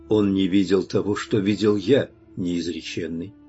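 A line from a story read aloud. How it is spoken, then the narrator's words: Calm. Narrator (Russian): ответил я спокойно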